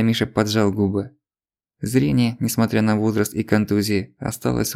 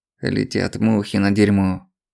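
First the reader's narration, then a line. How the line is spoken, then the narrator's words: Grumble. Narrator (Russian): проворчал дядя Миша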